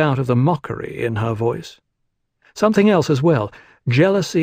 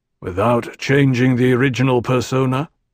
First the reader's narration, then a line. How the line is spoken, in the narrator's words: Teg fed the question to her blandly